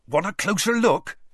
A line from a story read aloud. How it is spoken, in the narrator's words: Hagrid asked Madame Maxime excitedly